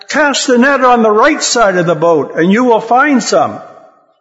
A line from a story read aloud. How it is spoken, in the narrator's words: He shouted back